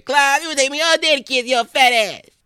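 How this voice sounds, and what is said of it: Imitates another person's voice. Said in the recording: “That was my impression of Chris Tucker doing Kevin Hart ... It's a work in progress.”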